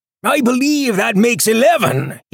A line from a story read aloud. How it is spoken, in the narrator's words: he yelled